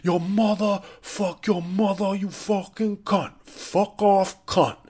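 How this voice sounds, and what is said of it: Exaggerated New York accent. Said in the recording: “atrocious New York Mike Francesa accent”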